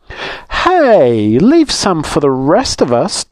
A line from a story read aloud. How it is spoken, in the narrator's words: Tessie cried